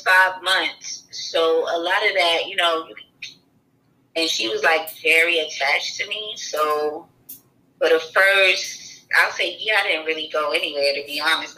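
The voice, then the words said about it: Slight New York accent. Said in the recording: “You do got a little accent ... My accent comes from New York.”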